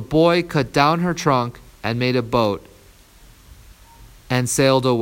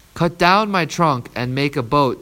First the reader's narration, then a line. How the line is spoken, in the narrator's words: said the tree